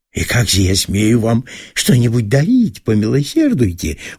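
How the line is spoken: Exclaimed. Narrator (Russian): воскликнул жид

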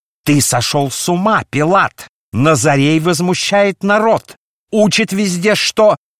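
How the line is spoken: Furious shout. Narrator (Russian): Оставив напускную сдержанность, Каиафа яростно закричал

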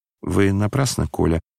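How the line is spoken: Muttering. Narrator (Russian): пробормотал князь

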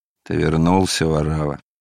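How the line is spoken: Grumbling jailer. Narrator (Russian): пробурчал тюремщик

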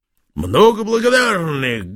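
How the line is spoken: Soldierly bark, giant. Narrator (Russian): гаркнул по-солдатски великан

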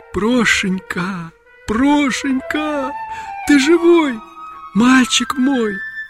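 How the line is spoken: Tearful whisper. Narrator (Russian): Агафья прошептала

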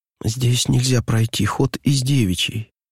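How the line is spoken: Desperate whisper. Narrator (Russian): сказала она шепотом, с выражением истинного отчаяния

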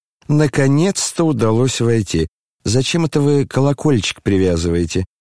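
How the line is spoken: Cheerful. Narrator (Russian): весело проговорила она

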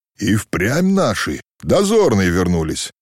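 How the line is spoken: Joyful shout. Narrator (Russian): весело и радостно крикнул Ермак

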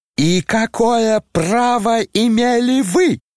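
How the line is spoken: Unnatural shriek. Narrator (Russian): завизжал самым неестественным голосом Ипполит

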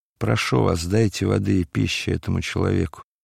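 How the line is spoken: Weak voice. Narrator (Russian): Варавва слабым голосом сказал

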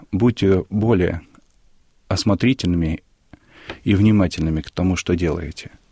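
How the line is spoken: Calm voice. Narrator (Russian): спокойным голосом сказал

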